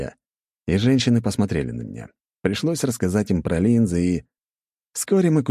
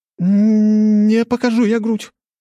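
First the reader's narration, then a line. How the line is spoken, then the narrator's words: Exclaiming. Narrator (Russian): воскликнула Анна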